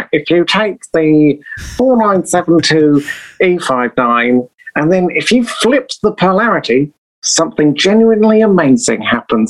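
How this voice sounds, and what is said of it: Nerdy English accent impression. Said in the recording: “the super English nerd who's like”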